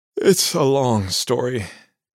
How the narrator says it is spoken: Jim said, yawning

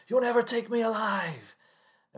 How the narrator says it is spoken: shouts

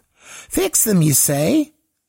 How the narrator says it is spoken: He laughed

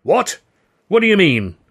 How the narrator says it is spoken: Hurley spluttered

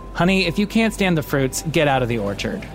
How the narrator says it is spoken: Joe turned to the man, his face, his voice straight as an arrow, and said

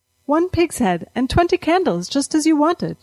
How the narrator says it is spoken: she said brightly

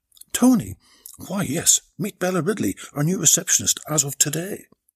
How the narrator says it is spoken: Giselle quickly came back to her senses and exclaimed

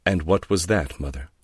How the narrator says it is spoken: Laura said coldly

